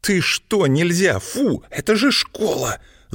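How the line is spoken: Hiss. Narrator (Russian): зашипела Злата на злющего

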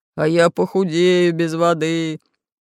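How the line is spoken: Fat man groaning. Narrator (Russian): застонал толстый Буль-Буль

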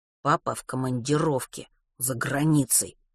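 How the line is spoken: Through gritted teeth. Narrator (Russian): сквозь зубы процедил Матвей

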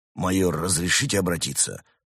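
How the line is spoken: Gloomy request. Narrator (Russian): мрачно попросил Амбразур

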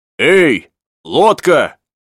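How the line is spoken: Heedless shout. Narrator (Russian): крикнул Пенкроф, по старой привычке забывая, что, может быть, лучше молчать

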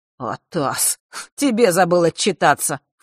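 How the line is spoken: Snort. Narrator (Russian): фыркнул он

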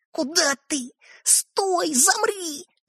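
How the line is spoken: Barely audible hiss. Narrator (Russian): едва слышно прошипел Светлик

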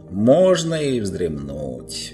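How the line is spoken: Drawling. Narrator (Russian): протянула она

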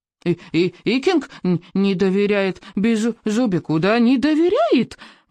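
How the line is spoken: Indignant squeak. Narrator (Russian): возмущенно пропищал он

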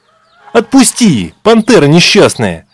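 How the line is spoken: Boy shouting. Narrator (Russian): кричал мальчик

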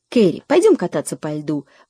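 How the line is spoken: Sudden exclamation. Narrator (Russian): воскликнула она вдруг

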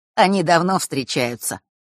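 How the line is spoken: Mocking explanation. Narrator (Russian): пояснил тот, насмешливо улыбаясь

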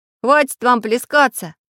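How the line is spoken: Shouted from a basket. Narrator (Russian): крикнул из корзины железный человечек

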